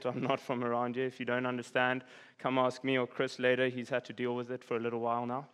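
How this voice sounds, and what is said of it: South African accent. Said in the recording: “I'm from South Africa, so I can't get any critiques on my accent”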